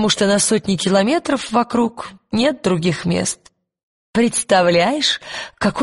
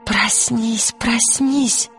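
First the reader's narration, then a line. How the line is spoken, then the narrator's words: Several whispering voices. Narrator (Russian): шептал не один голос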